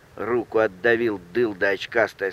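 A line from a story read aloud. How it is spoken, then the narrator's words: Plain. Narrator (Russian): сказал один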